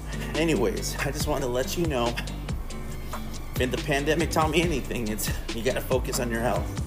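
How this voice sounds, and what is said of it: Slightly out of breath voice. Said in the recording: “I sound a little out of breath, ... I'm coming to you live from the treadmill in a gym”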